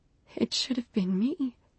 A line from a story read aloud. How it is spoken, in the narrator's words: whispered